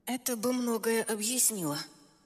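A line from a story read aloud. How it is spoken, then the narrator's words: Strained mumble. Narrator (Russian): натянуто пробормотала я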